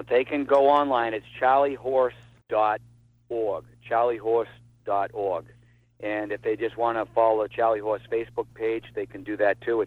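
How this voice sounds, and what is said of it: Boston accent. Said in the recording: “Boston accent... absolutely delightful”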